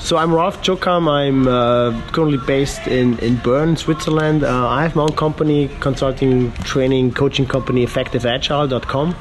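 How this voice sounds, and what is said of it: Hoarse voice from a cold. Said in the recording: “apologize for my voice. I'm just recovering from a really bad cold, so it's kind of like still sounding a little bit horrible”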